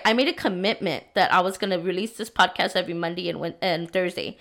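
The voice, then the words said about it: Sick-sounding voice. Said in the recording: “if you could probably tell in my voice, I've been sick, right? I've been sick the past few days.”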